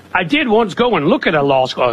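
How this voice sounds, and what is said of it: Put-on Southern accent. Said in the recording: “I just like doing my Southern accent so much.”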